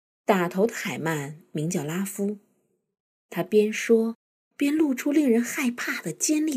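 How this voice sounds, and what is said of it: Usual voice. Nothing is said of it.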